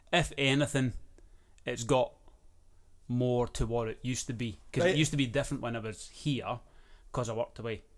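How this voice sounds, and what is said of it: Scottish Cumbernauld accent. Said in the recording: “You still sound like you're from Cumbernauld.”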